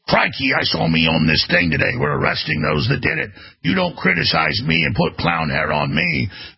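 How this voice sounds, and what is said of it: Weak Australian accent impression, Australian Prime Minister. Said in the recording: “the Australian Prime Minister, or Premier ... I can't really do an Australian accent.”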